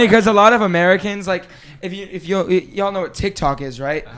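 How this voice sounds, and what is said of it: Usual voice. Nothing is said of it.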